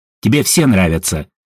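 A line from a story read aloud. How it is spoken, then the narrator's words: Skeptical snort. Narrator (Russian): фыркнула Едвига, решив не принимать слова Ажура за чистую монету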